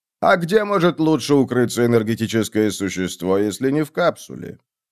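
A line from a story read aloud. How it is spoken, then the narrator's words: Plain. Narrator (Russian): Я сказал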